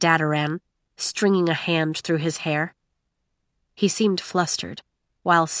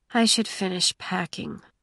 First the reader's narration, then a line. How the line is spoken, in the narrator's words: mumbled Maiko, sounding no more enthusiastic than if she were moving into a prison cell